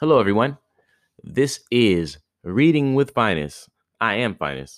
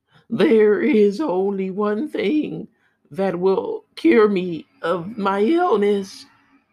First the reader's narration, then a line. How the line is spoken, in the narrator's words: sobbed the queen